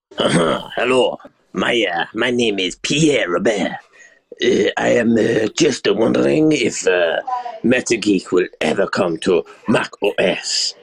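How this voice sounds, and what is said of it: Thick accent. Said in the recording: “Hopefully you can understand the thick accent ... That is awful.”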